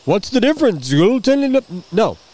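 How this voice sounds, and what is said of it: Snotty imitation of another person's voice. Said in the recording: “I wasn't trying to be do a snotty impression of Josh”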